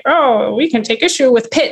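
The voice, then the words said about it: Funny put-on voice. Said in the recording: “I just said it in that funny voice”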